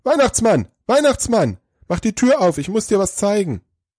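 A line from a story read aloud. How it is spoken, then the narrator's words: Breathless call. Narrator (German): ganz außer Atem, ruft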